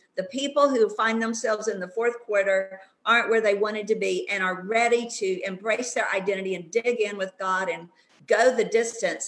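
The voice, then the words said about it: Texan twang. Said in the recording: “I'm from Texas. You might have noticed a little old twang in there.”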